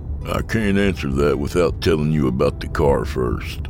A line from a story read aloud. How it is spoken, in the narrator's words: sighed